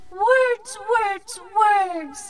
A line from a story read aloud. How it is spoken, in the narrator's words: Leaf laughed